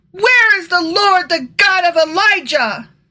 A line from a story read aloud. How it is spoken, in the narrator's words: He cried out